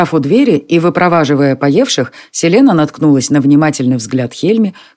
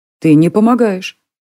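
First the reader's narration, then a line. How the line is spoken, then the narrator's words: Calm. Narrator (Russian): спокойно сказала Селена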